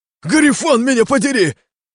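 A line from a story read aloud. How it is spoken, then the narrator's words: Leader shouting. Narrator (Russian): прокричал главарь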